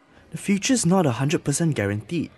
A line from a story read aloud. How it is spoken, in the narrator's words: said quietly